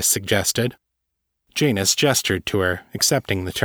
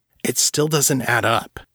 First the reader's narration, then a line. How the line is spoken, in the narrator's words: said irritably